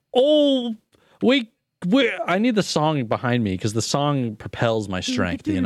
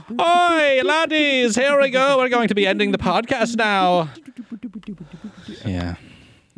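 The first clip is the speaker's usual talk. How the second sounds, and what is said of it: Poor put-on Irish accent. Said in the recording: “That was not Irish, whatever that was. ... It's my Irish accent, that's for sure. It's Timish.”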